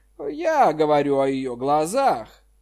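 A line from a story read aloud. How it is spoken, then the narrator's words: Laughing. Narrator (Russian): Джан Ян рассмеялся и сказал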